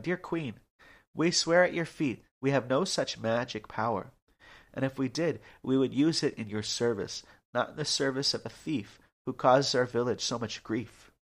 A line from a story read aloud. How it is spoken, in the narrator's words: Laughing good-naturedly, replied